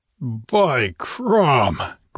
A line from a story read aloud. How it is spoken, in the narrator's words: grumbled Conan